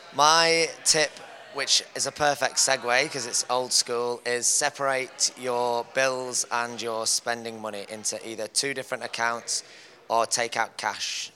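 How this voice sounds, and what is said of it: English accent. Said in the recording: “The accent's completely different to everyone, so I'm English originally, if you can't tell.”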